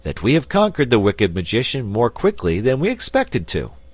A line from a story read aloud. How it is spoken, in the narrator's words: said the wizard in a cheerful voice